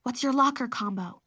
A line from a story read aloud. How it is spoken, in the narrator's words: I asked baby Sophie under my breath